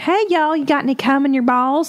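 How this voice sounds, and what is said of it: Put-on Southern accent. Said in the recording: “How about Southern?”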